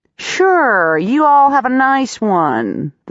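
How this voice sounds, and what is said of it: Drawling, weird-accented character voice. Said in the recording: “the desk drawls ... That's a really weird accent.”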